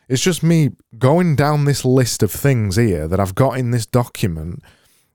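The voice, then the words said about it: Yorkshire accent. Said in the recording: “sometimes I'm talking in this Yorkshire accent, and then when I get really angry, I talk even more Yorkshire”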